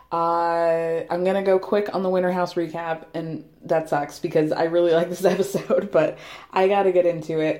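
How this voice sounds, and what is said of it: Slightly hoarse voice. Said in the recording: “I'm starting to lose my voice a little bit. I'm starting to get a little bit hoarse”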